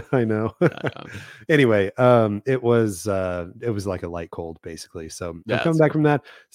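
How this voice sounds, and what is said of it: Slightly stuffy, congested voice. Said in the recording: “Still a little stuffy. I don't know if you can tell in my voice”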